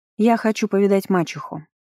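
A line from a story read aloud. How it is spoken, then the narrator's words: Solemn announcement. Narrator (Russian): торжественно объявила Иринка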